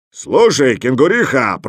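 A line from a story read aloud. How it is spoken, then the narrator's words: Roar, bear. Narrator (Russian): проревел медведь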